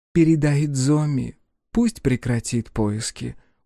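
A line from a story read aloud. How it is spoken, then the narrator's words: Tired. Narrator (Russian): устало проговорила Джия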